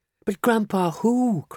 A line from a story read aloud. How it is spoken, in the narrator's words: cried Charlie